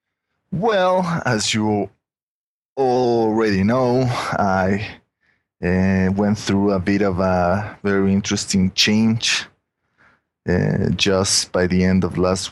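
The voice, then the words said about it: Mexican accent. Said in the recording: “my Mexican accent”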